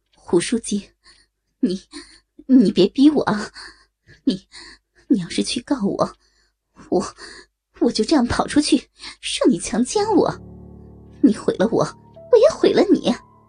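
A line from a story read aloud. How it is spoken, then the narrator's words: Panicked stammering. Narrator (Chinese): 胡海峰慌了，结结巴巴的说道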